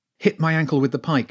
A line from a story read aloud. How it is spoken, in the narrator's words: she shouted